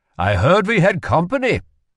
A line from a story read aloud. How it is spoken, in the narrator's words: said cheerfully